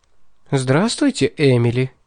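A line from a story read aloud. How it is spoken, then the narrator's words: Said cheerfully. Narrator (Russian): весело сказала Селена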